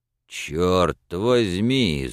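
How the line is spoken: Hoarse shout. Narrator (Russian): закричал хрипло

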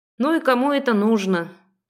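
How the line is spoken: Disappointed sigh. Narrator (Russian): разочарованно вздохнула

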